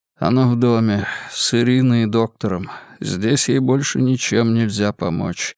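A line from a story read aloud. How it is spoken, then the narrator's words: Dull, lifeless tone. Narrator (Russian): промолвил Максимилиан глухим, безжизненным тоном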